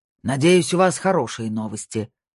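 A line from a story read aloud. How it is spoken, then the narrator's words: Growling. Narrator (Russian): прорычал Снейдер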